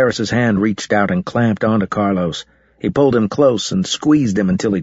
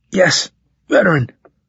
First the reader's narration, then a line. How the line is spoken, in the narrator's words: gasped